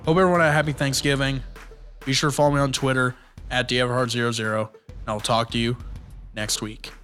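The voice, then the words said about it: Hoarse voice. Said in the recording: “my voice went a little hoarse throughout this ... Recorded two episodes same day”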